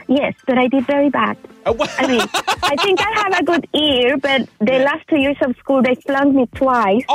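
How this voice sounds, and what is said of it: Chilean Spanish accent in English. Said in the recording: “I was in Chile, so we speak Spanish. Hence my accent.”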